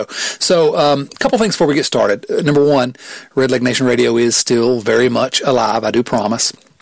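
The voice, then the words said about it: Southern US accent. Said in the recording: “this gorgeous southern accent”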